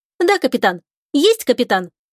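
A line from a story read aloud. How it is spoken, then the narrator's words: Brisk, cheerful. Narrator (Russian): бодро откликнулся Искин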